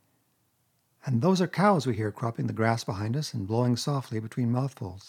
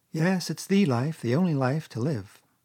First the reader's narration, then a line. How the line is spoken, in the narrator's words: responded the water rat, dreamily, and without his usual wholehearted conviction